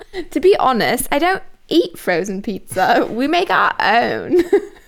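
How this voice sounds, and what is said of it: Poor attempt at British accent. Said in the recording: “I wish I could do a British accent. ... You can try. ... We just lost all of our British subscribers. ... I'm so sorry. That was horrible.”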